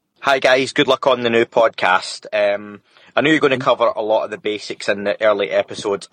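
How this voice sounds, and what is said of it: Scottish accent. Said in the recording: “you're going to tell by this man's accent that he's from a little place that I like to call home right now ... my good friend, in Scotland”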